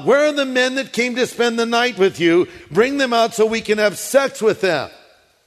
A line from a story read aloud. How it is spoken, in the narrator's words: The men shouted to Lot